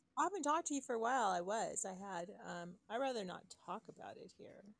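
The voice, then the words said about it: Raspy, congested, tired voice. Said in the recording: “You feel a little raspy. Are you a little raspy?... Your voice is a little bit more raspy and... you know, manly than chipper... congested?... A little bit of fatigue?”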